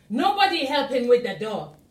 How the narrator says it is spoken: shouted Elijah

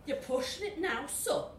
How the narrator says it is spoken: grumbled Satan

